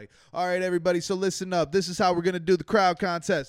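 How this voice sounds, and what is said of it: Booming radio DJ announcer voice. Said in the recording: “I think I got a radio voice,”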